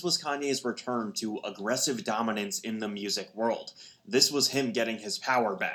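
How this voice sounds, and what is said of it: Half Brooklyn, half nerdy narrator accent. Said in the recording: “they all try to sound like a Dominion ... half MIT dork ... half it's like mafia handoff guy ... he's like doing a half Brooklyn, half Dark Nerd accent. so weird ... He's making it sound half Italian”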